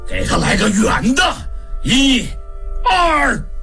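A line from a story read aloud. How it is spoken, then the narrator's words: Shouting. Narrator (Chinese): 常顺喊道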